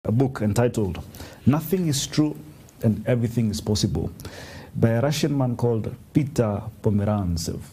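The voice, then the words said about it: Put-on Russian accent. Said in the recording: “That's a good Russian accent you got there.”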